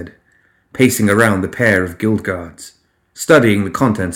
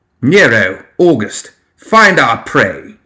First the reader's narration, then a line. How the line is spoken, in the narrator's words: he barked